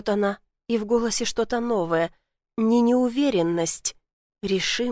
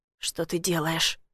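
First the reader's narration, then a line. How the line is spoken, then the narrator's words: Hoarse question. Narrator (Russian): хрипло спрашиваю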